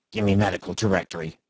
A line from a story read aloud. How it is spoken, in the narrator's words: he muttered